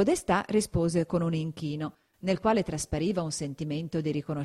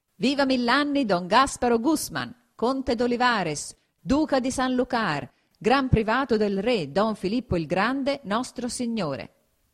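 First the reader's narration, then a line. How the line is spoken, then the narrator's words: Exclamation. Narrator (Italian): esclamò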